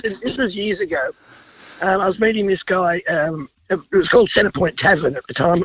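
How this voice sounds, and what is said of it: Voice affected by a cold. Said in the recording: “sorry about the voice. I've got a cold.”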